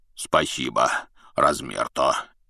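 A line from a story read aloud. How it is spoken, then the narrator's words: Deep bass voice. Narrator (Russian): пробасил Хагрид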